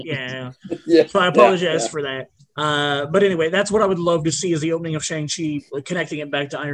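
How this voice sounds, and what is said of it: Usual voice. Nothing is said of it.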